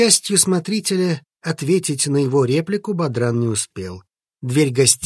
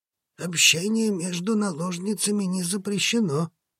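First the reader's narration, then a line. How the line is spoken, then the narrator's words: Awkward mumble. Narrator (Russian): зачем-то промямлил Сарх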